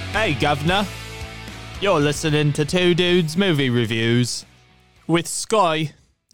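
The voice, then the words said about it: Put-on Australian accent. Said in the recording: “Everything has to end up being an Australian accent.”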